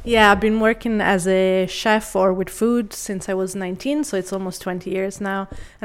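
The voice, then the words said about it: Full-on Irish accent. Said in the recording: “she has a full-on Irish accent”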